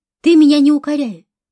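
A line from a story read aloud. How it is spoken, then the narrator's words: Sharp reply. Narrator (Russian): резко ответила Хуршида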